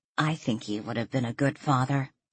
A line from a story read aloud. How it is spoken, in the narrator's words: Danielle murmured